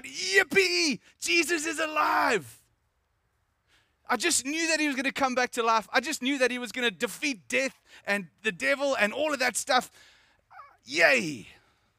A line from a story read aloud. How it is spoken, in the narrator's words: shout